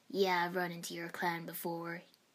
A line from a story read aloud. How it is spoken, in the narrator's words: he chuckled